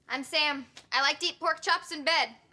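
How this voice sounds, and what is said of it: Imitates another person's voice. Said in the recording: “my imitation of you ... That's exactly how I'd say that.”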